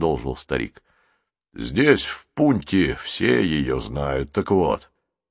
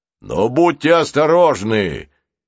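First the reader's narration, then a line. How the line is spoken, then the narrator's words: Old man shouting after. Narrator (Russian): крикнул им вслед старик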